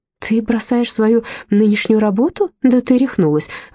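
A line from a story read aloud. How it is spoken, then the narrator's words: Exclaiming. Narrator (Russian): воскликнула Рози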